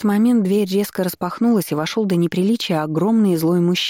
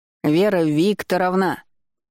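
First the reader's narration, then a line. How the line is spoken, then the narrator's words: Loud roar. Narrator (Russian): прорычал на весь отдел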